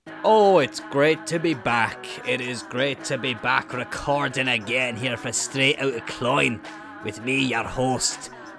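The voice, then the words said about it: Bad fake Scottish accent. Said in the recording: “with the worst fake Scottish accent you've ever heard in your life ... That was fucking terrible ... that impression”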